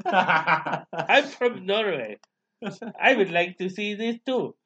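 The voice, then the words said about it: Put-on foreign accent. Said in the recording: “This guy just changes his accent a little bit each time.”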